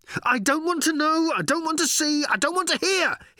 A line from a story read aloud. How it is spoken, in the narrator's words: he yelled as he ran